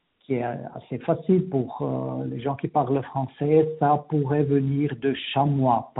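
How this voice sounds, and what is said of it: Slight Latin-sounding accent in French. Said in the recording (French): “dans ton accent, quand tu parles, on, perçoit un petit accent un peu latin”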